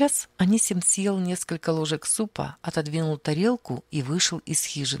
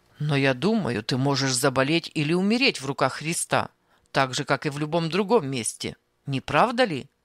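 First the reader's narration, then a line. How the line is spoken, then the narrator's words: Rude interruption. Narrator (Russian): Грубо прерывал он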